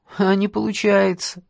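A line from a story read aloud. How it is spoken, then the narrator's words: Sad reply. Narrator (Russian): грустно отвечает Сеня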